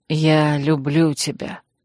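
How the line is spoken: Soft, encouraging, reassuring. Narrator (Russian): тихо сказал Крейг, подбадривая, напоминая, вселяя уверенность

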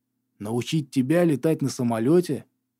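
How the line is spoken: Astonished mutter. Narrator (Russian): изумленно пробормотал Гарри

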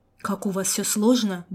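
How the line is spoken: Grumbled. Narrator (Russian): буркнул Напалм

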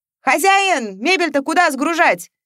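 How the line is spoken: Movers shouting. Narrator (Russian): кричали грузчики

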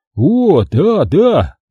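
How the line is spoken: Grumbling mutter. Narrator (Russian): буркнул Джерри

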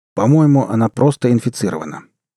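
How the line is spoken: Calm, dry bureaucratic tone. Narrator (Russian): невозмутимо ответил Шахидский самым обыденным канцелярским тоном

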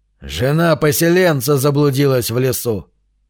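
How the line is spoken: Grumble. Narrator (Russian): проворчал Конан

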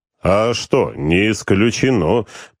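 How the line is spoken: Booming bass. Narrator (Russian): прогромыхал своим басом Владыка

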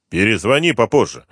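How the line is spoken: Curt, rude. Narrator (Russian): довольно грубо бросил Артемьев

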